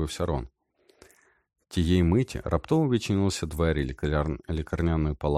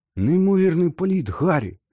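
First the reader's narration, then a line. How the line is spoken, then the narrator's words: Ardent exclamation. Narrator (Ukrainian): палко вигукнув Джордж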